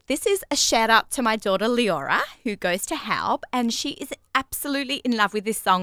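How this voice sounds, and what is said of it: Australian accent. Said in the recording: “my Hebrew with my Australian accent, yet alone my English with my Australian accent”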